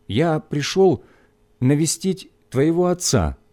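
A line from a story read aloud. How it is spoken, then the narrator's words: Timid. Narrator (Russian): сказал я робко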